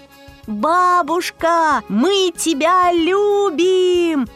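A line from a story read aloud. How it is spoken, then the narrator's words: Shouting together. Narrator (Russian): Закричали Рая, мама, папа, радуга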